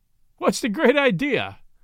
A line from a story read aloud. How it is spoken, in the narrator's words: said, laughing